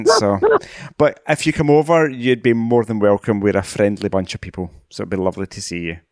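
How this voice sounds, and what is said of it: Scottish accent. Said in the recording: “to come to Scotland ... We all kind of talk variations with of this accent.”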